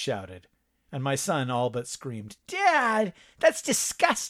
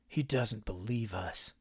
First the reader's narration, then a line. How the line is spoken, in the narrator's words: Cody muttered